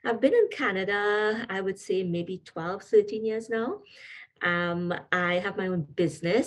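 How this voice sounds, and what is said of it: Trinidadian accent. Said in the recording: “you may not recognize the accent in my voice, but I'm originally from Trinidad and Tobago”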